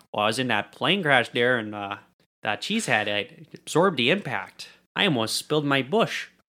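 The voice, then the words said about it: Put-on Wisconsin accent. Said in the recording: “He probably had a Wisconsin accent, too.”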